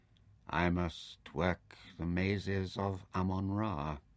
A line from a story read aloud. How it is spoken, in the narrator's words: Taita sighed and said softly, almost sadly